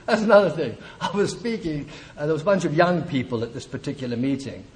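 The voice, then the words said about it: London English accent. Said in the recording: “For those of you with more perceptive hearing of accents, I'm not from La Jolla. ... I'm from London. I was born in London.”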